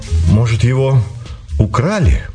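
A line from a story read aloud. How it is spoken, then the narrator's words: Confused mutter. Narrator (Russian): растерянно пробормотал Сеня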